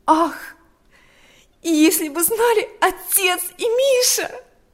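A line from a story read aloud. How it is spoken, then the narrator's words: Girl's exclamation. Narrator (Russian): воскликнула девочка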